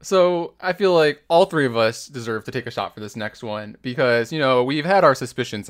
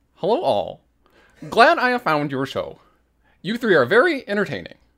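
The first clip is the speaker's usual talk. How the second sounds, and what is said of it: Imitates another person's voice. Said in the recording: “You have to do the Ian voice.”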